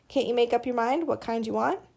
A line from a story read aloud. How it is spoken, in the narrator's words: The kid laughed